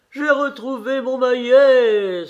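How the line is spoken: Crying out. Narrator (French): s'écria Karl

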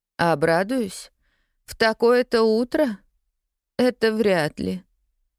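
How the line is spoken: Gloomy reply. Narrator (Russian): уныло откликнулась тетя Полли

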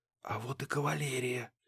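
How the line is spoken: Whispered. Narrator (Russian): прошептал Муха

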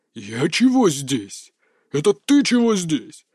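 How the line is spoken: Fierce growl, fat man. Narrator (Russian): свирепо рыкнул толстяк

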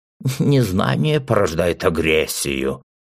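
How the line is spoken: Mock old hoarse voice. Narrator (Russian): изобразив старческий хриплый голос, произнес он, явно пародируя своего учителя

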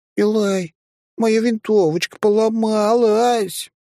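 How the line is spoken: Drawn-out sobbing. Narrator (Russian): Последнее слово у нее растянулось в рыданиях

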